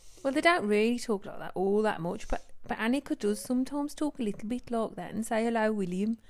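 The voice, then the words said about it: Strong put-on Birmingham accent. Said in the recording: “I am doing a really strong accent now, I think. But I used to live in Birmingham, so I can do quite a good Birmingham accent.”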